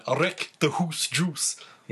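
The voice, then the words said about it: Attempted Scottish accent. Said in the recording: “Your Scottish accent is better than mine.”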